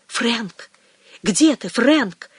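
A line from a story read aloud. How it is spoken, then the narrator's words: Loud whispered call. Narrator (Russian): позвала она громким шепотом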